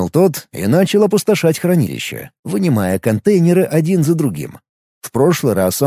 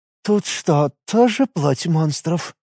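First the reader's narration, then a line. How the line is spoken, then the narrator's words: Hoarse question. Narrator (Russian): охрипшим голосом спросила главный мастер гильдии Вантан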